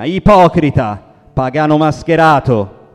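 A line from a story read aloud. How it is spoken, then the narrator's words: Shouted by others. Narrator (Italian): gridavano altri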